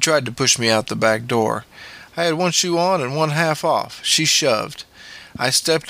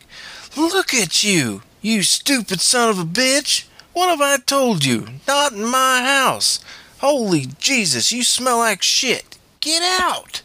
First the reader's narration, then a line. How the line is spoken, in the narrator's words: My stepmother began to shriek